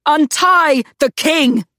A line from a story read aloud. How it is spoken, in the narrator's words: she roared